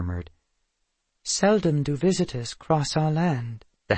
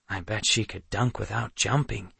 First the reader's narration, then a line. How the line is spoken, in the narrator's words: Nox muttered